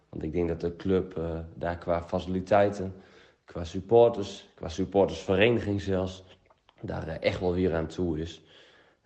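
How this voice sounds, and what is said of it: Groningen regional Dutch accent. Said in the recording (Dutch): “Een Gronings accent in een Drentse podcast moet kunnen”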